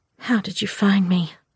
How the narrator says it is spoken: I whispered

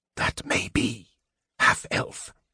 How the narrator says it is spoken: Raislin whispered from the depths of his cowl

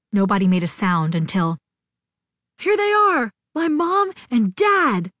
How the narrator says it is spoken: Gazzy shouted

